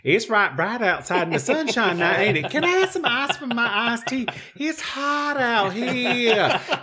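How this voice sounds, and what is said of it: Drawn-out Eastern North Carolina accent. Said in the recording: “I grew up in Eastern North Carolina where the language sounds ... Everything is so elongated. ... this Southern accent”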